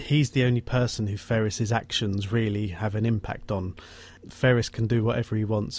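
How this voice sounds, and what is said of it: Usual voice. Nothing is said of it.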